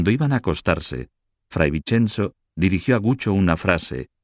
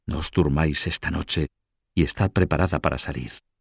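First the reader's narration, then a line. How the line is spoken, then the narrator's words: Whisper. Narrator (Spanish): susurrarle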